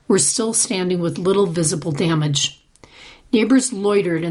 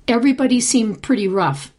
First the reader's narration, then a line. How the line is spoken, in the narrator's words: Passalacqua said